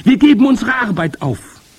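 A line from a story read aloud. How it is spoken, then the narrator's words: Overlapping shouting voices. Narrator (German): schrien sie durcheinander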